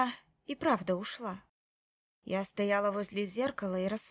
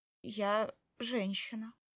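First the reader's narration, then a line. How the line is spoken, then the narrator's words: Uncertain. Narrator (Russian): сказала я неуверенно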